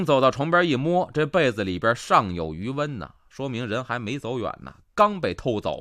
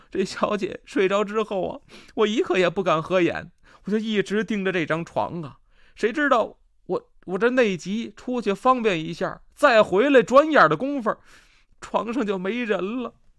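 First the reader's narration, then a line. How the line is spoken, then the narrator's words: Crying nursemaid reporting. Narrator (Chinese): 奶妈哭着禀报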